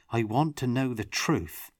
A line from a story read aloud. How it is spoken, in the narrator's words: Tomas said firmly